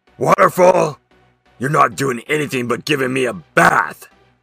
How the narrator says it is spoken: laughed

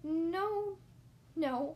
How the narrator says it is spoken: I stammered

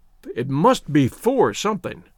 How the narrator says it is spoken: exclaimed the chaplain

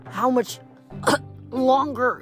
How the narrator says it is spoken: she wheezed

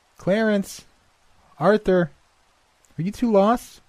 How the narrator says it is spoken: she regularly called out

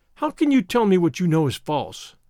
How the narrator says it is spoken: I cried

